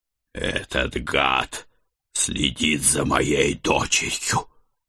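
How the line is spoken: Snarling, fuming. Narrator (Russian): выпустив пар через нос, прорычал я

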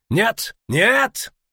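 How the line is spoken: Suddenly shouted. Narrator (Russian): неожиданно выкрикнул Боннард

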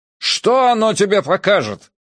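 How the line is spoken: Shout. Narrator (Russian): закричал он

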